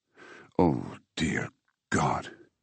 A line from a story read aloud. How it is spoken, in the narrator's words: He murmured